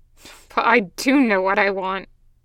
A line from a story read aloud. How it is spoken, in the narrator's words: Gunny scoffed